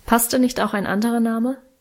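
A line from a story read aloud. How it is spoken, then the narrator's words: Plain question. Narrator (German): fragte Vater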